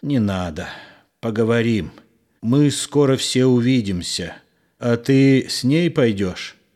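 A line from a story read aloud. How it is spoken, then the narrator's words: Direct question. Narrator (Russian): прямо спросил Егор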